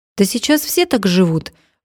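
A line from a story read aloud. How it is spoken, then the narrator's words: Indignant. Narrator (Russian): возмущенно продолжала Ната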